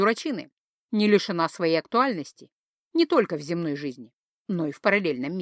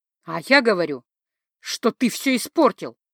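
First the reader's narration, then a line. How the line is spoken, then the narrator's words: Stubborn growl. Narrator (Russian): упрямо прорычала я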